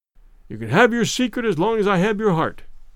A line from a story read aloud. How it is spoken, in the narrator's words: he murmured